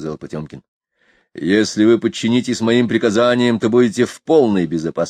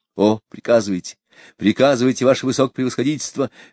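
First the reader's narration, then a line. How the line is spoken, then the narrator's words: Exclaimed. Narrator (Russian): воскликнул Ушаков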